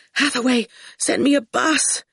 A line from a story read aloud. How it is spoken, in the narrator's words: he panted